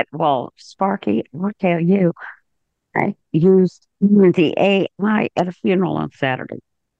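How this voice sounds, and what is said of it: Strained, fading voice. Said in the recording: “Sorry, I'm losing my voice again.”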